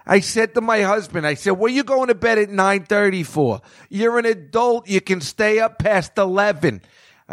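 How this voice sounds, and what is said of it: Heavy Long Island accent. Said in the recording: “This heavy, heavy Long Island accent ... this girl talks like this ... I'm not even doing it justice”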